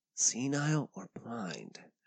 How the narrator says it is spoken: whispered, grinning

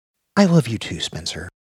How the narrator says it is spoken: she said curtly

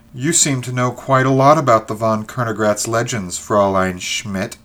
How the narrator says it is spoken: she said sharply

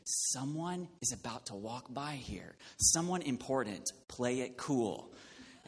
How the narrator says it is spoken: she whispered to me

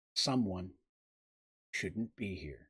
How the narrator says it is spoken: said gravely

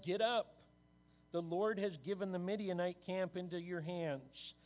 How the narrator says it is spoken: called out

